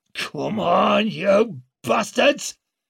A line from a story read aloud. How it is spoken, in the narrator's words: roared Jin in Northern